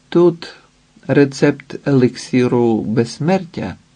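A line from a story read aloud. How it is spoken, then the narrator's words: Calm and sad. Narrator (Ukrainian): сказала спокійно і сумно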